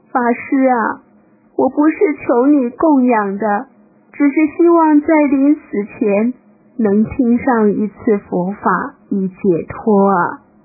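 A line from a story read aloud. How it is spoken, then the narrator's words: Beggar crying. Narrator (Chinese): 乞丐又哭着说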